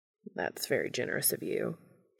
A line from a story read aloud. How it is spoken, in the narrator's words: Castiel says dryly